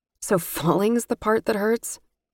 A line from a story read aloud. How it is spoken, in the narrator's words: I asked with a humorless laugh